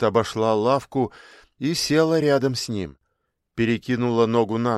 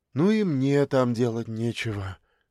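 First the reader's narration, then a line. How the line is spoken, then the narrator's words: Sister's sigh. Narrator (Russian): вздохнула его сестра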